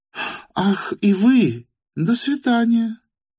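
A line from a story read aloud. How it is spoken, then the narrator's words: Gentle babble. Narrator (Russian): пролепетала она привычно ласковым тоном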